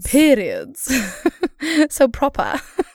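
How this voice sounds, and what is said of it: Made-up proper-sounding accent. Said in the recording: “accent remotely like that. We are not mocking you. We made that accent up just now.”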